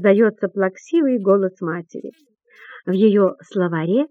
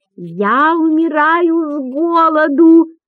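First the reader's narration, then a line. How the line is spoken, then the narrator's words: Loud declaration. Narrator (Russian): громко заявляет Барахлюш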